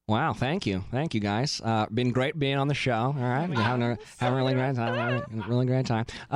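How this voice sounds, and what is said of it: Imitates another person's voice. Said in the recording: “your Nick Viall impression? ... do all the thank yous in Nick Viall?”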